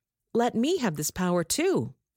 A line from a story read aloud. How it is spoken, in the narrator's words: he exclaimed